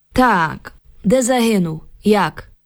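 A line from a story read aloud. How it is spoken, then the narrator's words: Grim metallic voice. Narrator (Ukrainian): Солдат умить спохмурнів і заговорив металевим голосом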